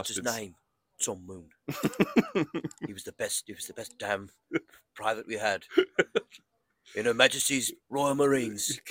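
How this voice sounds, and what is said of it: Put-on Southern English accent. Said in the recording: “I have to affect a Southern England English accent ... You're like Southern English accent.”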